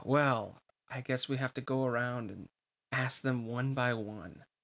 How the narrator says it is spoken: Hainer said with a sigh

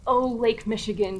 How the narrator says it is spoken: replied

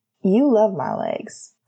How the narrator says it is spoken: Sirius pointed out with a laugh

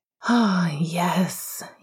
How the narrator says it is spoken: he sighed contentedly

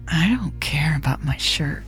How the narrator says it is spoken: Elle said, her voice low and husky

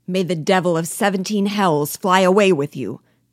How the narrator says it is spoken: cried Biasu in Spanish, impatiently

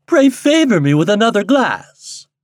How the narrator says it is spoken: cried she

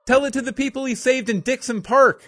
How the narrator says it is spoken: Cindy yelled

